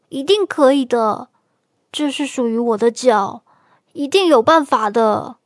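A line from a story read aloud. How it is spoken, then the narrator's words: Exasperated shouting. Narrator (Chinese): 斑马气急败坏的嚷着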